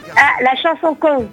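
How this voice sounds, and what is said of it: Put-on Toulouse French accent. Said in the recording (French): “Ah oui joli, bel accent, bravo ... j'ai fait l'accent. L'accent toulousain. Des fois, ça ressemble à l'accent marseillais”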